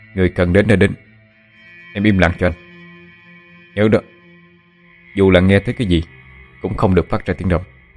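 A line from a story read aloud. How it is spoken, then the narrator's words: Stern. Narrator (Vietnamese): Phượng Thánh nghiêm giọng nói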